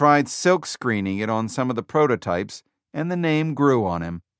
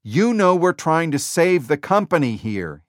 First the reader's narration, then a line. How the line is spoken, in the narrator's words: shouted